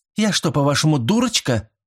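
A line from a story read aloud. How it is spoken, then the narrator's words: Sharp objection. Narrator (Russian): резко возразила мисс Лиффорд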